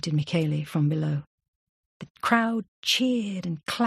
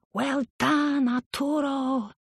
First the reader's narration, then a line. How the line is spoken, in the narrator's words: they shouted